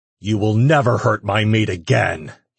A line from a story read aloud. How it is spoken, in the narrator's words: he growled at them